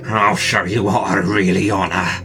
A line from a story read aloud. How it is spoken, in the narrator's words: he mumbled